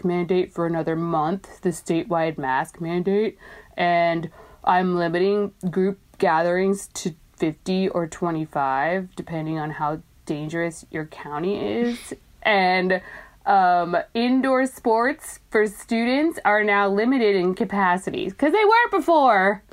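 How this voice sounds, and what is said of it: Impression of Biff from Back to the Future. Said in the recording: “the mayor of your town is Biff from Back to the Future, judging by your impression... That's my voice for him.”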